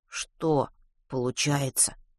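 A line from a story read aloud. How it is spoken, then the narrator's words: Characteristic mutter. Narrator (Russian): пробормотал Ватрушкин в своей манере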